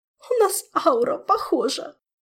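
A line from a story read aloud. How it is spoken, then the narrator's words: Hopeless sob. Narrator (Russian): безнадежно всхлипнула волшебница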